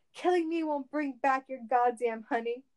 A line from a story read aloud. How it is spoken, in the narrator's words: Cage cried